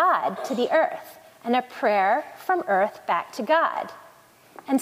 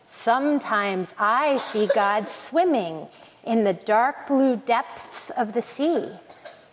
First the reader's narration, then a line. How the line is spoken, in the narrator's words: The voice seemed to come from a mountain who rumbled